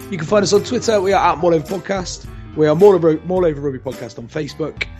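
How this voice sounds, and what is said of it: West Country English accent. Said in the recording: “all with a West Country accent.”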